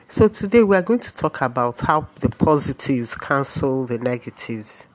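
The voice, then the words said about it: Odd, flu-affected congested voice. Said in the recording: “My voice is sounding a bit odd because I have a terrible flu.”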